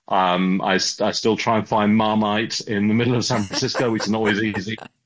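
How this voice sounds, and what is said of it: English accent. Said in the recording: “I had a very English upbringing ... I've kept my accent.”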